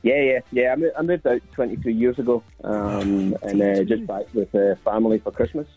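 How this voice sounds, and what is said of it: Strong Glasgow accent. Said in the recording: “The accent's still quite strong.”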